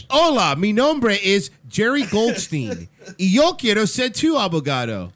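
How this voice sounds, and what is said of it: Spanish with heavy American accent. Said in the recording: “can you have that accent from here on out? ... learned that from just listening to English lawyers trying to talk in Spanish in South Florida”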